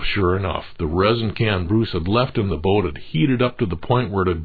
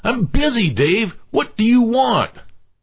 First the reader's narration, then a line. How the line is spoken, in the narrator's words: Exasperated, Bruce finally snapped